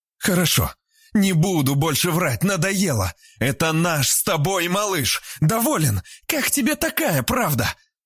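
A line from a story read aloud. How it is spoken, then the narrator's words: Defiant shout. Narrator (Russian): крикнула Вера с поднятым вверх подбородком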